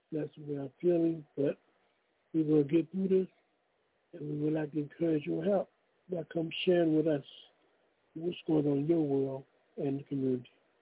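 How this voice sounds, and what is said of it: Weak, unwell-sounding voice. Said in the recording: “under the weather a little bit today, so my voice sounds very weak”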